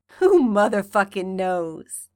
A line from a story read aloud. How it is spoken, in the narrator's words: chuckles